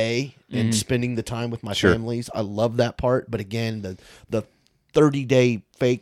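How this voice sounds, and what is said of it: Usual voice. Nothing is said of it.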